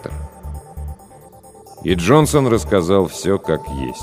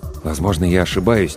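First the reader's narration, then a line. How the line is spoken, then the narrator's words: Said quietly. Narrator (Russian): тихо сказал доктор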